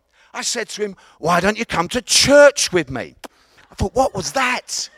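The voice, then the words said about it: East London Cockney accent. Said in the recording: “I had a proper East London accent ... I'm from East London, and we call it a Cockney accent.”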